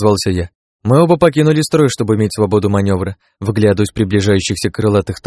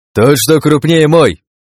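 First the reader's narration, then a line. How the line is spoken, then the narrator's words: Shouted. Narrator (Russian): крикнул Крат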